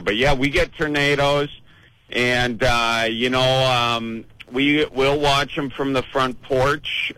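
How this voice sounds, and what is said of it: Wisconsin Midwestern accent. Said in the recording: “I love hearing that Wisconsin accent”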